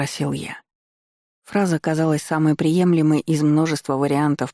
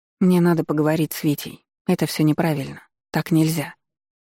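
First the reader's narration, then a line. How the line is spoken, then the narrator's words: Plain. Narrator (Russian): ответила Ева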